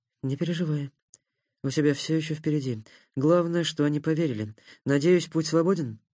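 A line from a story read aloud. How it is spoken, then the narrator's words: Dry sigh. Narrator (Russian): Сухо вздохнул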